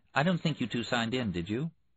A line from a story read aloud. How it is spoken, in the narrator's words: the woman with the clipboard, who smiled brightly and said